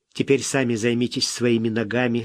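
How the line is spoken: Plain. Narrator (Russian): сказал

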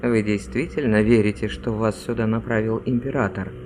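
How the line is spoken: Quiet question. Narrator (Russian): негромко спрашивает примарх Азабриил

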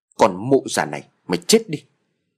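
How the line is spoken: Loud bark. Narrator (Vietnamese): gã quát lớn

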